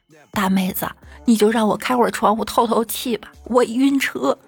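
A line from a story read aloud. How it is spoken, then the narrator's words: Pleading. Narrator (Chinese): 我朋友就哀求道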